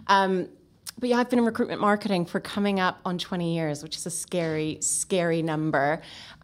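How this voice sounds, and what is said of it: Canadian English accent. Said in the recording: “I don't have a British accent... Canadian, for those who don't quite have the accent ear”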